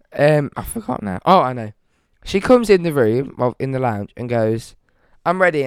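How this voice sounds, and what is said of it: Hoarse, fading voice. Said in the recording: “you can see there. I'm still losing my voice.”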